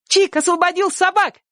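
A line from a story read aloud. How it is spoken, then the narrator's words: Joyful shout. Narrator (Russian): радостно крикнула Сонька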